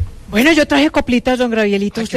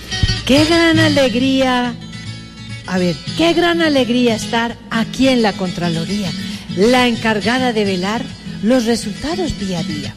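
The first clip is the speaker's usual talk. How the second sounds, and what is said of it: Sing-song intoned recitation. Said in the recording (Spanish): “con entonado acento”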